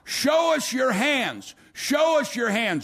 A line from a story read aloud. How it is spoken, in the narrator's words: they would begin to shout